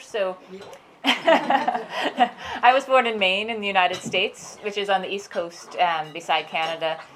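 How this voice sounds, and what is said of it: American accent. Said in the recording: “you probably can immediately tell from my accent I wasn't born here”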